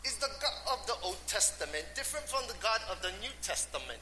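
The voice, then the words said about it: Poorly imitated English accent. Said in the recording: “he's from England, so he talked kind of like Adele ... Sorry, bad English accent”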